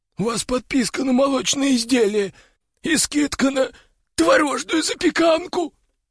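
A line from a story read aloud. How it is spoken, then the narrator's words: Squeak. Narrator (Russian): пискнул он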